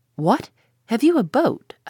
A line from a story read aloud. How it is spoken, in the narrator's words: I exclaimed in surprise